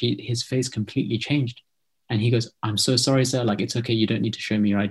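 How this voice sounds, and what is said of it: Distinctly British accent. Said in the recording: “you can hear my accent now ... It's very ... distinctly British”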